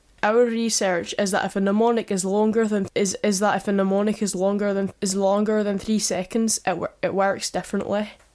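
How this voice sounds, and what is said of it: Attempted Scottish accent sounding Irish. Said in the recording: “try some weird, Scottish accent or something? Can you do a Scottish accent? ... I just went Irish.”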